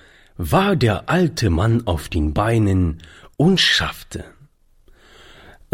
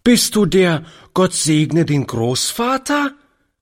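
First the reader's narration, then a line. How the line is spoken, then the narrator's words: Lively child calling out. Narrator (German): rief die Kleine lebhaft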